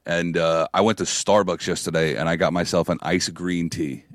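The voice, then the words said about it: Strained, recovering hoarse voice. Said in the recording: “My voice is still recovering from it ... my throat felt way better after that”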